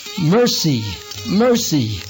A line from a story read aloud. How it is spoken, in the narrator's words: Madai cried out